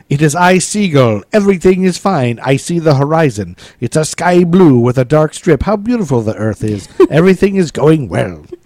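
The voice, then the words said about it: Unconvincing put-on Russian accent. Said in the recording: “What kind of accent was that? ... That was Russian. ... It was like a leprechaun in a. It was all kinds of weirdness. ... I do an impeccable female Russian accent.”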